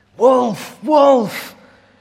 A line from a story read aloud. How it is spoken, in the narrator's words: cried the shepherd boy